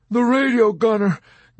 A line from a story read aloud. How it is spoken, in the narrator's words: Dobbs begged